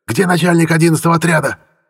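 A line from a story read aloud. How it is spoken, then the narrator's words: Yell. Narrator (Russian): Заорал он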